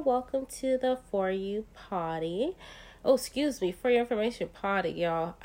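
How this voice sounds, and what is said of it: Congested, sick-sounding voice. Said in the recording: “I have a cold. ... This is not the normal me.”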